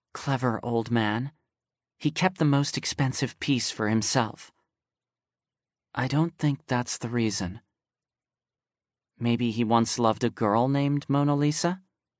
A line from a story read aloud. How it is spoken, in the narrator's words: whispered